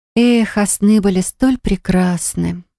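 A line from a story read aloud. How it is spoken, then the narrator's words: Sighing. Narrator (Russian): вздохнула я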